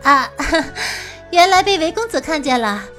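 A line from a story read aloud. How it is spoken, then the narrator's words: Laughing. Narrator (Chinese): 白姬笑了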